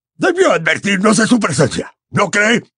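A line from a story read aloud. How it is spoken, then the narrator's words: Sharp retort. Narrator (Spanish): le espetó Gaunt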